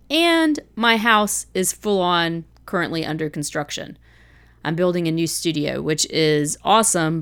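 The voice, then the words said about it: Congested voice from a head cold. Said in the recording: “brought back a souvenir head cold, which you may can still hear in my voice.”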